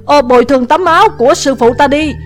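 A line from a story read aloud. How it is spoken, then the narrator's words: Shouting. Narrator (Vietnamese): Địch Vân cũng la lên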